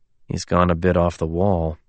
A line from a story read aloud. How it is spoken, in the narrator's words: Alexander muttered